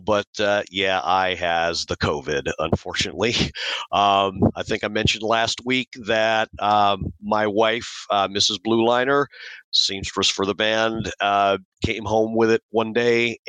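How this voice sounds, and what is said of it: Sick-sounding voice. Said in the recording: “as you can probably hear in my voice, I'm fighting it like hell”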